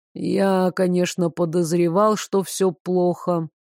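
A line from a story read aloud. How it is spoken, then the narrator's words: Muffled, pensive. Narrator (Russian): глухо произнес Девислав, в задумчивости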